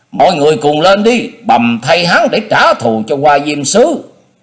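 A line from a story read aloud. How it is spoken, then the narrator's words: Barked command. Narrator (Vietnamese): Thuần Du Anh quát tiếng nói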